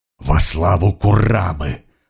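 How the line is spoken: Hoarse wheeze. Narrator (Russian): прохрипела она

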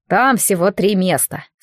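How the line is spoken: Calm. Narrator (Russian): спокойно сообщил Хендерсон

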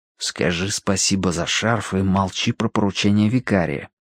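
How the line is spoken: Prompting in an undertone. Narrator (Russian): подсказал вполголоса Данворти

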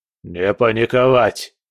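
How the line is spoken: Gruff bark. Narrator (Russian): рявкнул скала

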